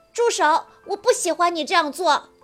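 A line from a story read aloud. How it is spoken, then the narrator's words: Loud, repeating. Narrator (Chinese): 吉米大声地重复道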